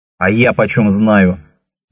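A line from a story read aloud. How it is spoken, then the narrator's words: Sudden bark. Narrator (Russian): неожиданно рявкнул умнейший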